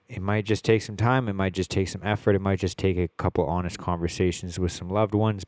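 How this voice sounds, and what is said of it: Nasal, congested voice. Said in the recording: “As you can hear, my voice is still pretty fucking nasally ... getting my splint taken out of my nose”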